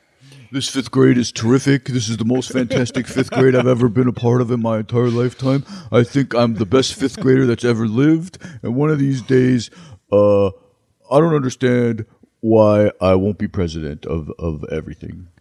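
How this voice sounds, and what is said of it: Imitates another person's voice, poorly. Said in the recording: “worst Barack Obama impression ... That's because it was Ronald Reagan ... I thought it was Trump”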